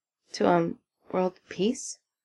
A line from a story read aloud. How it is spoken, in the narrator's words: Even Texas mutters